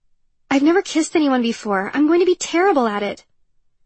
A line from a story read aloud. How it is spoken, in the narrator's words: she blurted out and cringed